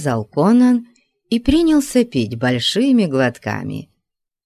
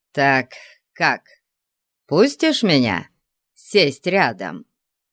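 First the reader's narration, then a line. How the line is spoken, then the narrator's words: Giggling. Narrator (Russian): Сакумби хихикнул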